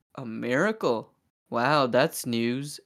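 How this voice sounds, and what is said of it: Monotone, sarcastic delivery. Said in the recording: “In, like, the most monotone, sarcastic voice possible.”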